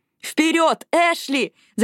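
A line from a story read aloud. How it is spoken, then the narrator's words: Shout. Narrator (Russian): закричала Робин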